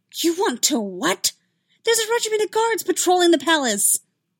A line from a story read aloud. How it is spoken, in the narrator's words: Anakin leaned across the table and hissed